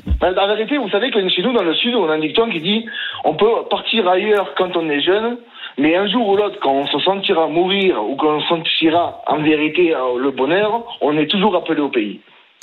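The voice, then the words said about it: Southern French accent. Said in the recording (French): “Avec ce petit accent qu'on adore ... les sudistes ... sont extrêmement fiers de leur accent”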